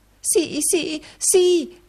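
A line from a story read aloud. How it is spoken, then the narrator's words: Exclaiming. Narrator (Italian): esclamò la moglie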